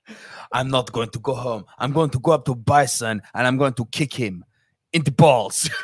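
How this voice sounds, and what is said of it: Put-on French accent. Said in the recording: “You all-American hero with your French accent.”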